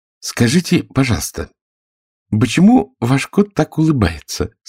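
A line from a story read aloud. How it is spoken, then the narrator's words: Timid question. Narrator (Russian): спросила Алиса робко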